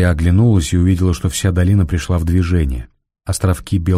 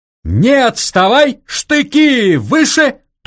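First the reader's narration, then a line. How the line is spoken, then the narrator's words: Thin, piercing shout. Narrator (Russian): тонко и пронзительно крикнул он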